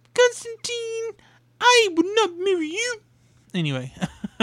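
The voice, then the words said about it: Bad Muppet character voice impression. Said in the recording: “my bad Miss Piggy impression”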